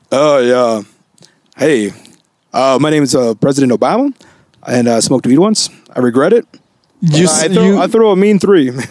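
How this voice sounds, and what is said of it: Impression of Barack Obama. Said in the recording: “your Obama impression.”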